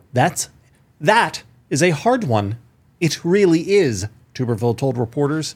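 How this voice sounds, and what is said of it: Reading voice, almost British-sounding. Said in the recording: “he's almost British in this new voice of yours”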